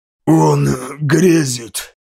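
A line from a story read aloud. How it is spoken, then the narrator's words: Hoarse gasping wheeze. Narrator (Russian): Прохрипел между судорожными вздохами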